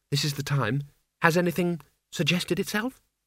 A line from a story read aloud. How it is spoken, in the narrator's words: she said quietly